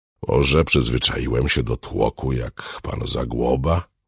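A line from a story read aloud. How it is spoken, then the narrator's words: Muttered. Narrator (Polish): mruknął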